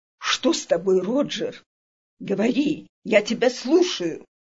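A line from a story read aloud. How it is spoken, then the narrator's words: Hoarse muttering. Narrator (Russian): Мастер пробормотал хрипло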